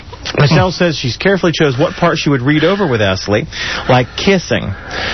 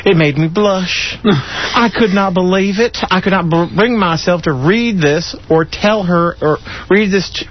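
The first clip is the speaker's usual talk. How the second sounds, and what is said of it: Put-on Southern US accent. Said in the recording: “I'm so busy with doing the southern accent.”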